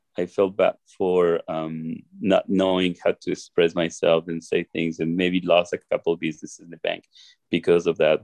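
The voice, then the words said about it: Non-native English accent. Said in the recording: “I felt bad for my accent.”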